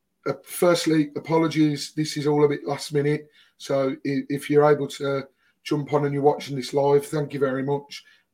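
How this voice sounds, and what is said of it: Strained voice after shouting at game. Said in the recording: “Hopefully my voice holds out. As you can tell, it was quite a game to be at yesterday, and my voice has taken an absolute battering thanks to it.”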